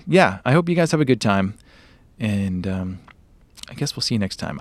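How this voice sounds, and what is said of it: Hoarse, strained voice. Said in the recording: “my voice is fried”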